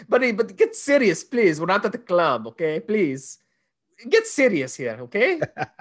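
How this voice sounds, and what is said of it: Imitated Cuban-accented judge voice. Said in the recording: “What kind of accent is that? Is that a Persian accent? ... It was a Cuban judge”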